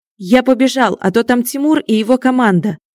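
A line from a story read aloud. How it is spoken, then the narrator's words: Shouted. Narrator (Russian): крикнул он коту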